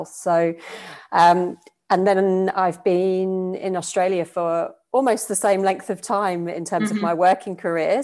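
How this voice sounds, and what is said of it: British accent. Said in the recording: “you probably pick up from my accent. I'm from the UK originally”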